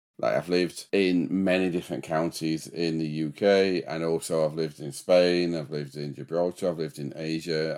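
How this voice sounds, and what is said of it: Yorkshire English accent, somewhat mixed. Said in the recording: “What part of the country is your accent from? ... So I'm a bit of a mongrel, my accent nowadays. But no, it's a Yorkshire accent.”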